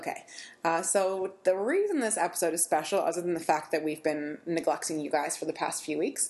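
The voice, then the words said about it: Sick-sounding voice. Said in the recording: “you're playing a little hurt again this week ... I keep getting sick, so I apologize for my voice again”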